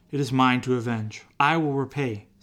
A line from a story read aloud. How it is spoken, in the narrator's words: says the Lord